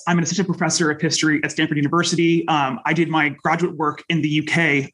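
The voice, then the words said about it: American accent. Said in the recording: “I'm American, of course, you can hear from my accent”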